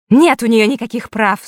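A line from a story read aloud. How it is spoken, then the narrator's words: Angry woman exclaiming. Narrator (Russian): зло воскликнула женщина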